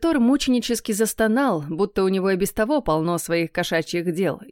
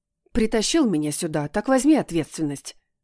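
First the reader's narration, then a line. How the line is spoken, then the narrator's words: Hissing. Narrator (Russian): зашипела я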